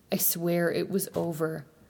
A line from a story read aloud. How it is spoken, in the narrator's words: He sporadically cries and repeats short phrases